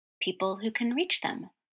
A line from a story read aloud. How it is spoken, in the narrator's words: Roy murmured